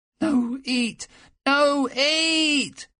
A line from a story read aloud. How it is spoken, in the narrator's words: screamed at the top of his lungs